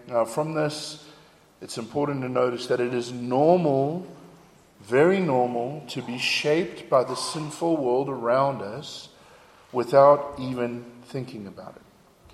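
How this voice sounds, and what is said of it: South African accent, partly Americanized. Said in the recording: “my accent... what is going on with this guy's accent?... it's sounding a little bit more South African again... my accent was very, very confused”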